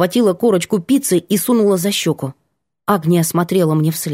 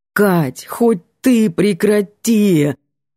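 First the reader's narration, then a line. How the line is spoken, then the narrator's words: Pleading. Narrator (Russian): Взмолился Антон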